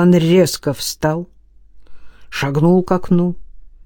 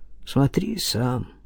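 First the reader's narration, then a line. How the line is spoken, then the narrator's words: Quiet. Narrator (Russian): тихо сказал он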